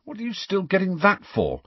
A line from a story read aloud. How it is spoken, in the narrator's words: said Harry irritably